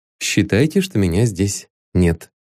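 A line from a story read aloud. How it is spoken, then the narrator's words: Plain. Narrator (Russian): ответил Ванзаров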